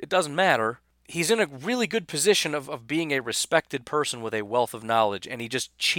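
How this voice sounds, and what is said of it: Usual voice. Nothing is said of it.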